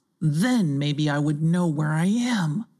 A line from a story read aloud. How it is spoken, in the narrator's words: he sighed aloud